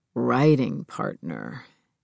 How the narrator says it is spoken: Neil murmured

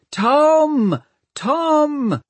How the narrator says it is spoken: Hester called back, and stood up, waving both arms and shouting

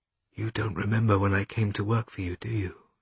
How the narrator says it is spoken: She asked quietly

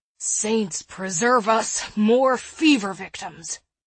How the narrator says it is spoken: groaned the short man

